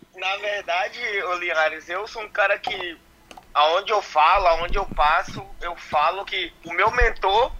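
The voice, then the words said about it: Bahian Brazilian Portuguese accent. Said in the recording (Portuguese): “Esse sotaque, esse, um... esse, sotaque baiano não muda nunca ... Esse sotaque não tem jeito”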